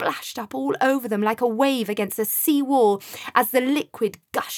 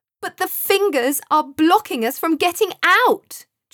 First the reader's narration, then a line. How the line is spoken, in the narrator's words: Joseph shouted, totally unimpressed